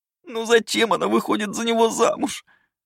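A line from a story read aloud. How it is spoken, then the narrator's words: Sobbing maid. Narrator (Russian): рыдала служанка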